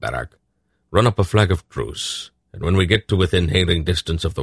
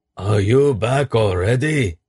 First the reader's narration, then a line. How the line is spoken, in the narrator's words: Oskatat bellowed across the intervening water